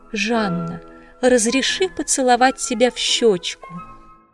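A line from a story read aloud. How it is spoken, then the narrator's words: Tender pleading request. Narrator (Russian): маркиз умилительным голосом попросил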